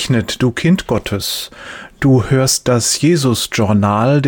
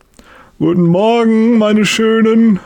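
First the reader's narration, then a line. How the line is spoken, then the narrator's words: Calls out loudly. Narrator (German): ruft er laut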